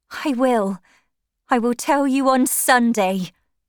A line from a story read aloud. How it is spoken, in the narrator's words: cried